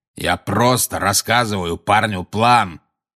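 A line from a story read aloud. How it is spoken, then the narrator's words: Growled. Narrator (Russian): прорычал Грюм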